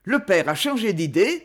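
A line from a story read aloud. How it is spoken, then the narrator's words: Plain question. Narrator (French): demanda Samuel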